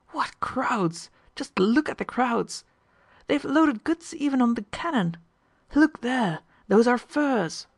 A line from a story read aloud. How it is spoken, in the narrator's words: they exclaimed